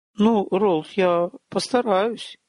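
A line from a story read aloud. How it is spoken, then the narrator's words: Uncertain young woman. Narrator (Russian): неуверенно ответила девушка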